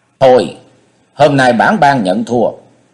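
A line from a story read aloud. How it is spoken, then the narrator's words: Loud, through gritted teeth. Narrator (Vietnamese): Mạnh Phi Yến nghiến răng hậm hực, lớn giọng nói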